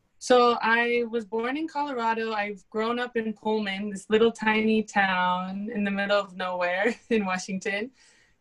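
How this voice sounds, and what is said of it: European-sounding accent. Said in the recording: “they say I have an accent ... They always think I'm like from Europe somewhere ... it sounds very European”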